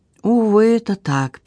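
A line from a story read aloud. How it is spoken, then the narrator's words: Sad confirmation. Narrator (Russian): печально подтвердил я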